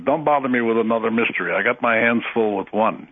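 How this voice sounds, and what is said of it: Impression of Stanton Friedman. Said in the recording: “that's a pretty good impression of Stanton. That's exactly the way he sounds.”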